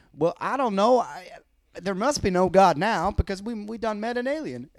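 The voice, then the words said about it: Put-on Arkansas accent. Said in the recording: “That was my best Arkansas accent.”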